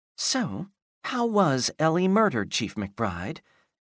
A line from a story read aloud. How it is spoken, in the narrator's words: Ellie said quietly in her best reporter voice